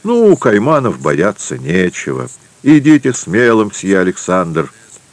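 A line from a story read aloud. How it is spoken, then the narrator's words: Familiar voice exclaiming nearby. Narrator (Russian): воскликнул в нескольких шагах по-французски хорошо знакомый голос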